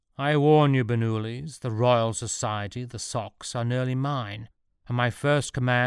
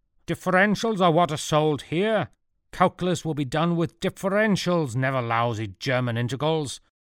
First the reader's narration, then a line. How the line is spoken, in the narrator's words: shouted Newton, upside down himself with fury